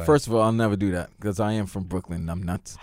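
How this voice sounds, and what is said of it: Brooklyn accent. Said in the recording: “your Brooklyn accent”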